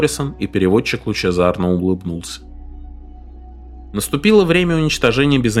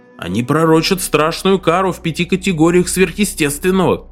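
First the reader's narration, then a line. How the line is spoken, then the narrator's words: Shouted after someone. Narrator (Russian): крикнул вслед переводчик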